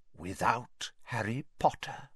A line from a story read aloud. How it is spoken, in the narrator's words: breathed the second voice softly